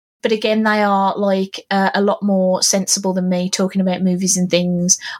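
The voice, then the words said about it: English Midlands accent. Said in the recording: “they're also Midlanders. So if you appreciate my accent”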